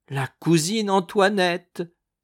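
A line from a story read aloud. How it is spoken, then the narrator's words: Exclaiming. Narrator (French): s'écriait Thérèse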